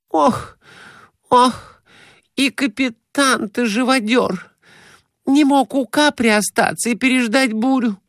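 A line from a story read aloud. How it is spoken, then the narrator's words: Moaning. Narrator (Russian): Глафира Семеновна стонала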